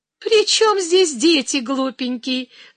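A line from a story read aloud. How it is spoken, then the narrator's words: Young woman laughing. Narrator (Russian): засмеялась девица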